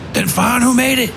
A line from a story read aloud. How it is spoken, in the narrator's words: Garvey snapped